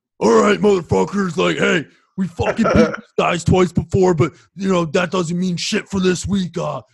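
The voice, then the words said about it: Impression of coach Andy Towers. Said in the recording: “going to do my Andy Towers voice”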